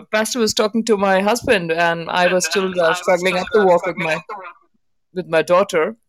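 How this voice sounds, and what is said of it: Noticeable accent. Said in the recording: “if we get past my accent”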